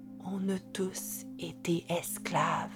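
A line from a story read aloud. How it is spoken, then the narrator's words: Murmured. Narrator (French): murmura-t-il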